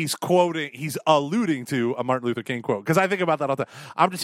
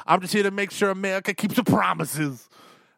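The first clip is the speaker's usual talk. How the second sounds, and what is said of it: Imitates another person's voice. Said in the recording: “that was a good impression.”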